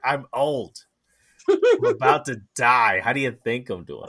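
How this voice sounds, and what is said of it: Imitates another person's voice, poorly. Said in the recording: “that's a terrible Gilbert Godfrey impersonation”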